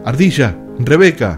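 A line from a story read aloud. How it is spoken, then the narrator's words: Shouting. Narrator (Spanish): gritó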